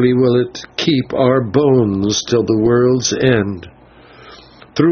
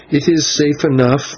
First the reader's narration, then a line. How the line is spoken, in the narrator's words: Maya answered with a bitter laugh